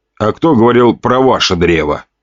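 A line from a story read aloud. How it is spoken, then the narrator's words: Snorting scoff. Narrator (Russian): хмыкнул я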